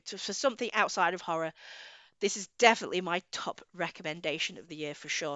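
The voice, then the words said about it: Strained, tired voice. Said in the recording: “give my voice a rest because my voice is going already. You can hear”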